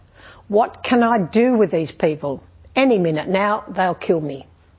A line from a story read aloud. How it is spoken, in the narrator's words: Moses cried out in prayer to God